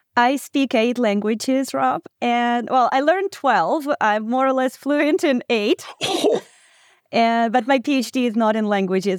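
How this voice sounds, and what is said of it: Non-American, Ukrainian accent. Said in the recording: “now I hear the accent, and I know you're not from the United States ... you were actually from Ukraine”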